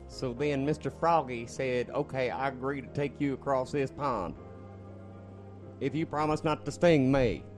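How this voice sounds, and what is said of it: Odd character voice. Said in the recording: “weird voice”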